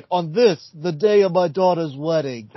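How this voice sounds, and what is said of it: Poor mob-boss film actor impression. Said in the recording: “that was a terrible Brando impression, but it's a Merrill Brando hybrid”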